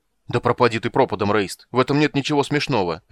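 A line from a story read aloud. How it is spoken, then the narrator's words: Angry barking. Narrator (Russian): рявкнул Карамон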